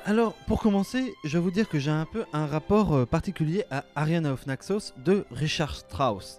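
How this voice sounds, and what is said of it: Attempted German accent. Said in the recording (French): “Vous noterez mon accent allemand toujours aussi bon. Je tente des accents chaque, euh, à chaque épisode. Je ne désespère pas de réussir à en faire un.”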